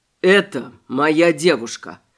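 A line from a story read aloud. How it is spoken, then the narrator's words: Dry calm statement. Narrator (Russian): сухо и спокойно сообщил Шарат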